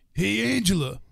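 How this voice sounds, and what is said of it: Imitates another person's voice. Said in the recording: “do my Tony Danza impression ... That's pretty good. It's a little bit of a Rocky Balboa in there”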